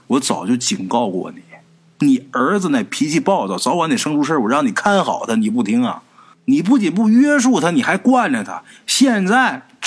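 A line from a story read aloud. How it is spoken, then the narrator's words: Sighing, reproachful. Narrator (Chinese): 二叔叹了一口气，告诉他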